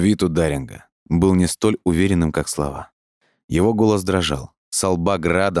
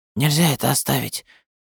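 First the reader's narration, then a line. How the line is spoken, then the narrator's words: Strange tense interruption. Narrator (Russian): перебил Даринг странным, напряженным голосом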